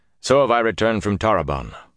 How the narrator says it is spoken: he said in a strong voice

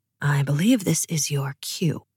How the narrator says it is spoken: whispered Nikolai

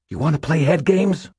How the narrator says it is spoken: Molly snarled

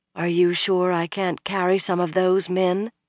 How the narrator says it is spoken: Egwene asked softly

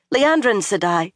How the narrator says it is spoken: said urgently

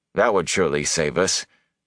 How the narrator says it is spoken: Perrin said dryly

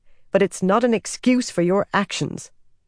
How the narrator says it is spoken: Nynaeve snapped

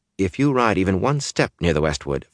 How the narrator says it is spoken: Fayil said calmly

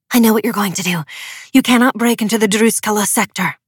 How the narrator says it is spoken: Hana whispered furiously

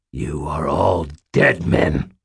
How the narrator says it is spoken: Aristides snarled

